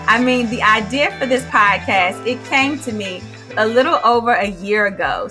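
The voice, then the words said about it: Excited, energetic speaking voice. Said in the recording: “I hope that you can hear the excitement in my voice.”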